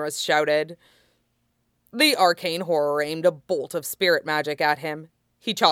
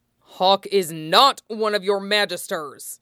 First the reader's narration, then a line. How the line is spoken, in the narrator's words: Fenris snapped